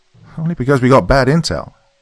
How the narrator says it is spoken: Tony scoffed

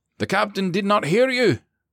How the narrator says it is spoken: McCarty barked

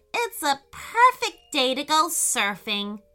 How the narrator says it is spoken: shouted Peyton with delight

